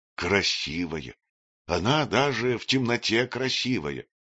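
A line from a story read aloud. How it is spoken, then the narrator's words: Sighing. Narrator (Russian): вздохнул Варсус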